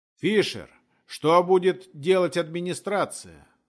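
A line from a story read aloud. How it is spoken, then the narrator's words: Shouted out. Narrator (Russian): выкрикнул кто-то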